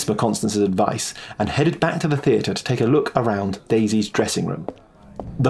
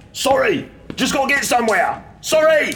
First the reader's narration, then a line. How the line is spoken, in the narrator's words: He yelled back